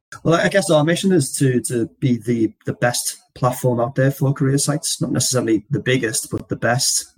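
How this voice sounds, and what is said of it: Liverpudlian English accent. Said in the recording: “that beautiful accent that you can hear from ... is Liverpudlian, just like the Beatles”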